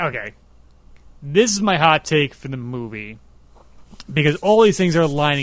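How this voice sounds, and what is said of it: Usual voice. Nothing is said of it.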